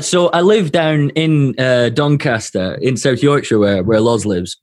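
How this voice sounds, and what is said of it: Scottish accent. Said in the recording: “your accent is so much different than his ... is he Scottish?”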